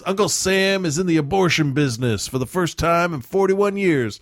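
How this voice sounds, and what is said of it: Put-on Texas accent. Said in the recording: “I gave him a Texas accent.”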